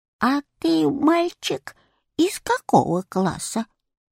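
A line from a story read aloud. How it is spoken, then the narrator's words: Old woman's voice. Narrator (Russian): старушечьим голосом спросила она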